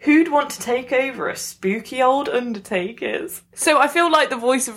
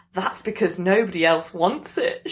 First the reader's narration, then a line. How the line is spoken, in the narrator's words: she laughed